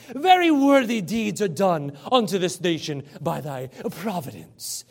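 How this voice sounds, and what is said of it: Put-on Scottish accent. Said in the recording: “I should do a Scottish accent for you”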